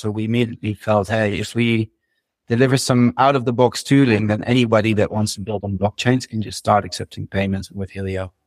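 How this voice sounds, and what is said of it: Dutch accent. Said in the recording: “my Dutch accent”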